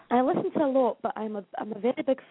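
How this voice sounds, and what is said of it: Strong Scottish accent. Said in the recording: “I love your accent ... Scotland's got a strong accent ... I'm trying to speak very clearly”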